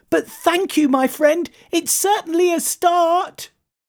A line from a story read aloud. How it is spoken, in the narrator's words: cried the moth